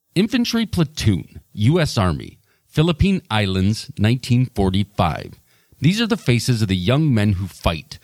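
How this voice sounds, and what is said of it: Rod Serling impression. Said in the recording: “I, am not saying my Rod Serling impression is any good at all”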